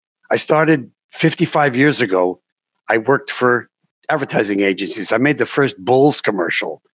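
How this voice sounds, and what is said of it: Older man, New York accent. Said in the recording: “I'm an old man. I have a New York accent”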